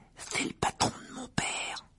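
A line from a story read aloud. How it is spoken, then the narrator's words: Whispered. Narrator (French): chuchota Ron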